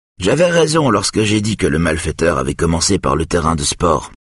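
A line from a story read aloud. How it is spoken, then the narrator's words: Plain. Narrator (French): dit Yona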